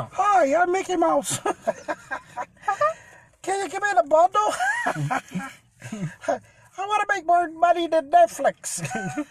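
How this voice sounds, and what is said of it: Poor Mickey Mouse voice impression. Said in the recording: “My Mickey Mouse impression sucks”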